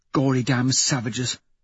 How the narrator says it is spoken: Victor mutters

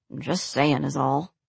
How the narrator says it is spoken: muttered Harold, mostly to his feet

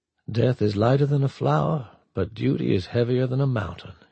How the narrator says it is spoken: said softly

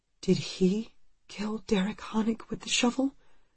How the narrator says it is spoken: she whispers

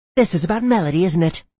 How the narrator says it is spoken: She snapped

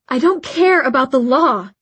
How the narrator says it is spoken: Isabel began angrily

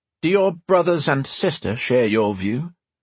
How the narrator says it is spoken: He asked evenly

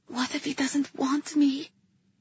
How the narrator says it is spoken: I whispered to her

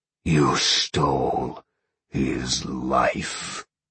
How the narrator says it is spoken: Sean growled softly

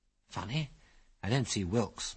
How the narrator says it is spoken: murmured Algy

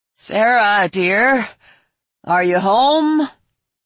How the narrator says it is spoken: Vernon called out

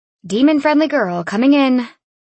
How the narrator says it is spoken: I said nervously

